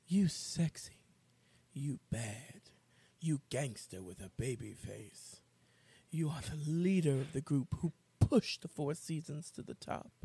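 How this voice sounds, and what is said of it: Sultry public-radio announcer voice. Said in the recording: “my sexy NPR voice.”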